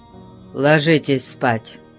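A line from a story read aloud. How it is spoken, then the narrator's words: Grumbling. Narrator (Russian): проворчал он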